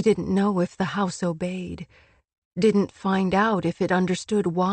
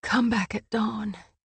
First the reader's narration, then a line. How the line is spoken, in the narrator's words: She managed to whisper into the room